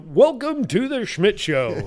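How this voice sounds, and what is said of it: Exaggerated fake radio announcer voice. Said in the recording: “fake voice ... I don't do some weird, you know”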